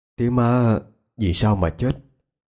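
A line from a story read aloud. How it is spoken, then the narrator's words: Hoarse voice. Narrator (Vietnamese): anh khàn khàn giọng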